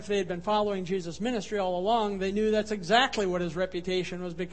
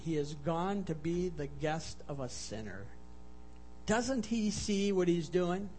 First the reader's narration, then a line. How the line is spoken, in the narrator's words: they murmured, they muttered